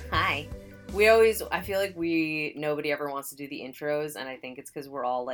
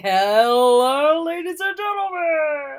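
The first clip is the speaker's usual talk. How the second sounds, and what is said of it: Carnival barker announcer voice. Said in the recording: “We all do that carnival barker voice.”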